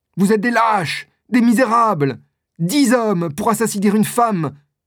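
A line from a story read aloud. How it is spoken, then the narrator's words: Screaming. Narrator (French): hurle Milady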